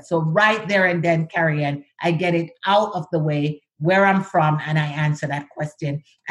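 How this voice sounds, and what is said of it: Jamaican accent, dropped H and S. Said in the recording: “I am Jamaican. I have an accent. Sometimes I drop my H, I drop my S's”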